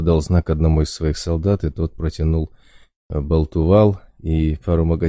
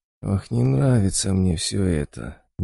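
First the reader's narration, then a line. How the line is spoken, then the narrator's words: Quiet drawl. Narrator (Russian): негромко протянул Болт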